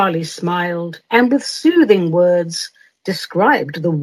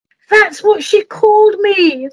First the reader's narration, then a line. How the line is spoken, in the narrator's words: the man cried out